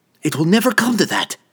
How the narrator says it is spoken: Verna snapped back

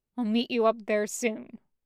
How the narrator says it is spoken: he grunted

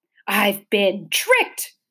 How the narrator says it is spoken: cried the math magician helplessly

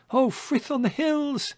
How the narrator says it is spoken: cried Dandelion

